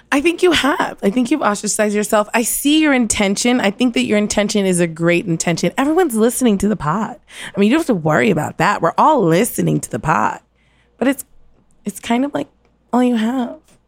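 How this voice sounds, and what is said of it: Condescending tone. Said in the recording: “you are now being condescending to me. I can hear it in your voice.”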